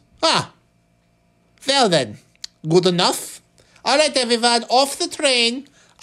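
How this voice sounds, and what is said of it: Vaguely Swiss European accent. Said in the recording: “my general European impression is vaguely Swiss”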